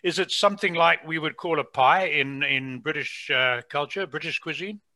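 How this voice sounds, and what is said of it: Non-Canadian, British-sounding accent. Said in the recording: “you can hear from my accent, I haven't been in Canada all my life”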